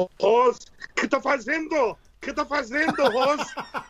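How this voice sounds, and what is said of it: Put-on German accent in Portuguese. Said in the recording (Portuguese): “Vou tentar fazer o sotaque alemão”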